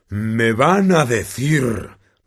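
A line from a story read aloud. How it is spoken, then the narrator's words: Roaring. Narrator (Spanish): rugió a los Dursley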